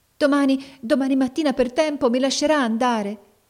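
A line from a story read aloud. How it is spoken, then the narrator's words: Pleading young girl. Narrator (Italian): domandava supplichevole la giovanetta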